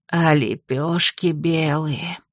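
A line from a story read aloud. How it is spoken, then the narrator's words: Disappointed old woman sighing. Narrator (Russian): старуха ... разочарованно вздохнула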